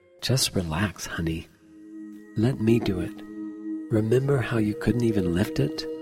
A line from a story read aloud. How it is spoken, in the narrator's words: I chuckle, and humoring you, I whisper in your ear